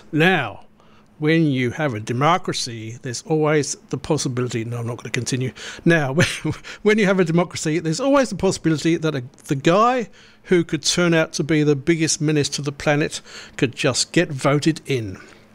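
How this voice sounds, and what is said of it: Impression of Frank's voice. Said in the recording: “Came across a great quote from Frank. I'll try and do his voice.”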